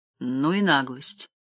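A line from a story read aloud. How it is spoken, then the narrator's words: Muttered. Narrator (Russian): пробормотал я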